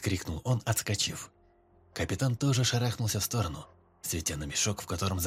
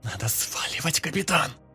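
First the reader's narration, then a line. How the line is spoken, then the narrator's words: Hiss. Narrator (Russian): шипел лейтенант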